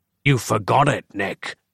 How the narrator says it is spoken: growled the dark fraction

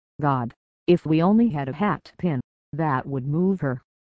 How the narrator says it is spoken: I heard George gasp

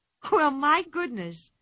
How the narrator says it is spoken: she cried

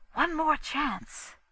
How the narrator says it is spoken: Some angel must have whispered

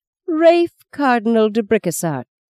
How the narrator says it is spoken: she mocked

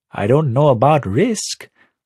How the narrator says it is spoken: Avli says, with a little laugh

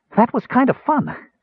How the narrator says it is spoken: Tass commented breathlessly

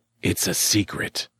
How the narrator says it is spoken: Mock whispered

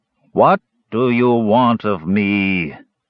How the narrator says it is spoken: boomed a voice

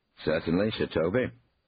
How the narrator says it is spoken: said Harry

